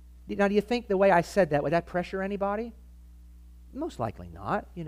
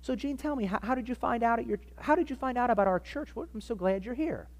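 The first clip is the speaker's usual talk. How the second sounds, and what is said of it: Kind, gentle, simple tone. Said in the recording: “Just in a very kind, you know, simple way... your tone of voice”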